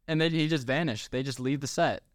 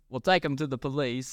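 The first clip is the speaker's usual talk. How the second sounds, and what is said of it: Imitates a bad put-on accent. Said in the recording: “That was a terrible accent.”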